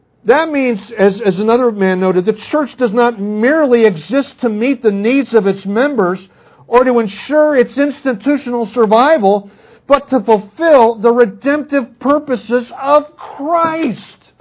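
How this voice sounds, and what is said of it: Raised, louder preaching voice. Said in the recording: “raising my voice”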